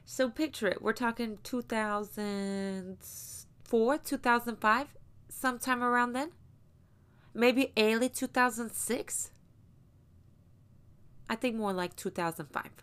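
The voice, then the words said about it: Put-on accent. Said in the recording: “I can't do this whole story in this accent. So I'm gonna have to quit it”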